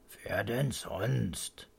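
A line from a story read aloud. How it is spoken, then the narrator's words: Grandpa grumbling. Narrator (German): brummt Opa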